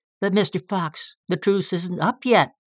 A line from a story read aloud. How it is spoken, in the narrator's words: pleaded Bumper